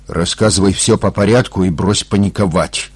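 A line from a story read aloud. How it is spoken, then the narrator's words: Hard, stern voice. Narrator (Russian): жестким голосом произнес Юрий Федорович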